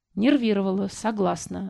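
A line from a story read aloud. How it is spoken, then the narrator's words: Sigh. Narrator (Russian): вздохнула я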